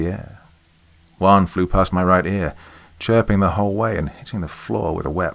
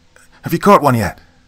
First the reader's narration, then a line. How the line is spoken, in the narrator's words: Jordan shouted